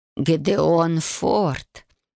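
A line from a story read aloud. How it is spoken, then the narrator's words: Tired. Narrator (Russian): устало проговорила она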